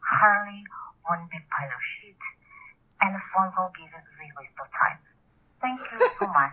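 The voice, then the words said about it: Poor put-on Russian accent. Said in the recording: “my harsh accent, which is horrible ... Russian? ... It sounds like Russian one ... Ukrainian, maybe?”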